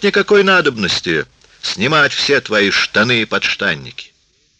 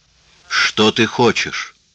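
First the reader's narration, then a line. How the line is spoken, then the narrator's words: Quieter, calmer. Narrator (Russian): Тат повторил более тихим и спокойным голосом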